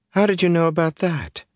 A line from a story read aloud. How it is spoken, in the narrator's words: Egwene exclaimed